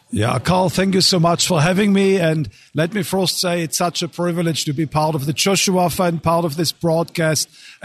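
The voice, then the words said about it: German accent. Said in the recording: “a good German accent”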